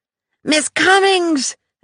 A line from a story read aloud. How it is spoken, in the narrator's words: Adesina exclaimed